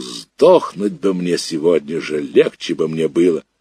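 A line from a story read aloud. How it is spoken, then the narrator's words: Old woman shouting aimlessly. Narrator (Russian): Бабушка кричала неизвестно кому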